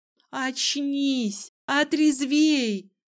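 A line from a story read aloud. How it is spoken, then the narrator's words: Shouted in face. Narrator (Russian): крикнула в лицо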